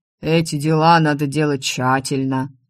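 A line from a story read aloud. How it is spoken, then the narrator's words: Deep bass voice. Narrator (Russian): ответил великан густым басом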